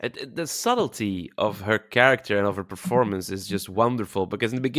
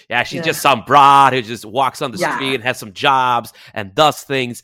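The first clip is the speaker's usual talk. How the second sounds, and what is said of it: Put-on New York accent. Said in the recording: “I'm gonna say this in a type of New York accent”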